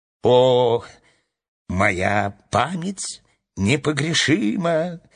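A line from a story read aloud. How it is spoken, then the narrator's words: Laughing queen. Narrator (Russian): рассмеялась королева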